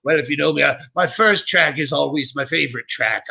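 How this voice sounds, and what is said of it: Poorly faked British accent. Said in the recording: “I do this horrible British accent that I'm trying to fake”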